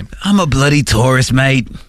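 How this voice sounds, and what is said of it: Put-on Australian accent. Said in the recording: “We're doing like Australian accents ... a British accent ... that's how he sounded”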